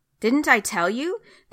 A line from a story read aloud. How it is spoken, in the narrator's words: the king of Israel exclaimed to Jehoshaphat